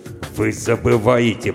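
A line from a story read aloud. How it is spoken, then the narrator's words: Growl. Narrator (Russian): прорычал полковник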